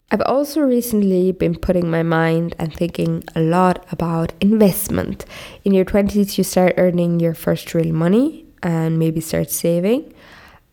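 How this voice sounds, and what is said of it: Deep congested voice from cold. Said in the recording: “I have a cold, guys. Please excuse my deep voice.”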